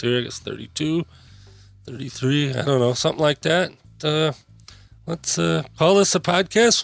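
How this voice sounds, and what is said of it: Strained, worn-out voice. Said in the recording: “my voice is shot”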